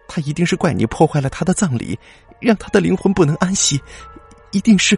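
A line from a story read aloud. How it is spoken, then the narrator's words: Trembling voice. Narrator (Chinese): 苏太太声音颤抖的说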